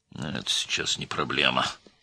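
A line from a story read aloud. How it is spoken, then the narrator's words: Gloomy remark. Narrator (Russian): мрачно заметил министр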